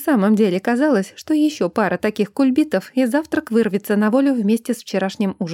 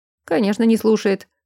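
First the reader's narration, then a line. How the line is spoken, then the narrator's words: Snorting. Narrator (Russian): хмыкнул Брент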